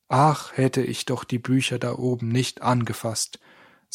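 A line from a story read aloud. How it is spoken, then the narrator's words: Plain. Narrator (German): sagte Stefan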